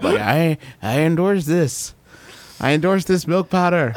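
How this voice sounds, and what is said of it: Ronald Reagan impression. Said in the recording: “a picture of Ronald Reagan on it ... that might be the best impression you've ever done on the show”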